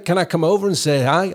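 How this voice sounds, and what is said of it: Put-on American accent. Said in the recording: “I've cut my American accent.”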